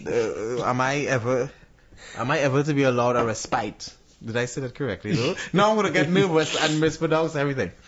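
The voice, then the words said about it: Mixed Trinidadian, British and American accent. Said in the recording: “for my accent ... the UK, the US, and the Trinidadian accent, they all pronounce words differently”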